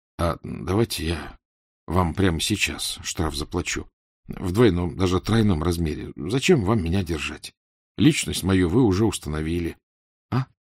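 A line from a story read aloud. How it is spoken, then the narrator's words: Embarrassed whisper. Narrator (Russian): Покраснев, Фандорин шепнул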